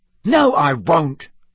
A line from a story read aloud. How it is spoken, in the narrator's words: said Ron hotly